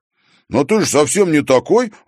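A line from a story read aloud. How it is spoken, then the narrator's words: Exclaiming. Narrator (Russian): воскликнул Димка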